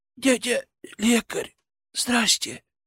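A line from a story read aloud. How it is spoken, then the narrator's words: Wheezing rasp. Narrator (Russian): прохрипел он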